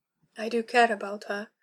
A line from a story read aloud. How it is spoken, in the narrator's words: she heard herself murmur